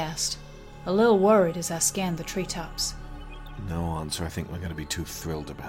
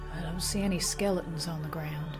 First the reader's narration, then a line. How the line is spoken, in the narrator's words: I murmured, shuddering